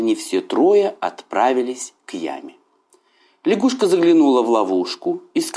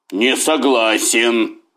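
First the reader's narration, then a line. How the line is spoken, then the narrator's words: Tiger growling. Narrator (Russian): зарычал тигр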